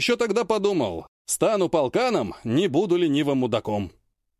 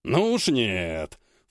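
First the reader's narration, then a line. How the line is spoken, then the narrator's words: Snort. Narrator (Russian): фыркнул Кравченко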